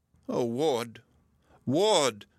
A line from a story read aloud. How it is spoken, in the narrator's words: sobbed